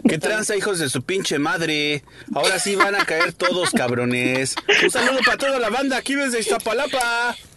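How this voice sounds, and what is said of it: Put-on Mexican Spanish accent, convincing. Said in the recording (Spanish): “yo también sé hacer un acento mexicano ... Te salió tan bien”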